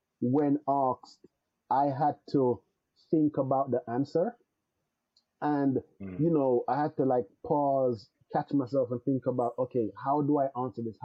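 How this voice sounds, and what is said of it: Jamaican accent. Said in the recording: “being that I was born in another country, my accent is still there... with other Jamaicans”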